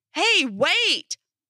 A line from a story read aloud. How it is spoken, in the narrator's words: I heard him yelling